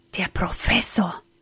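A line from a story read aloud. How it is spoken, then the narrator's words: Frightened whisper. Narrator (German): flüsterte er erschrocken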